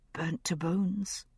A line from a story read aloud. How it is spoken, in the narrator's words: whispered the voice of my memory